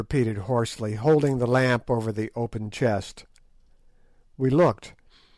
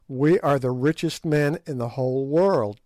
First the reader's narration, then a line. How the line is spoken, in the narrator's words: I said